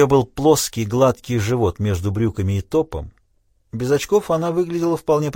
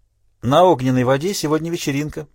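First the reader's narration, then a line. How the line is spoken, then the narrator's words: Cheerful young woman. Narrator (Russian): весело сообщила девушка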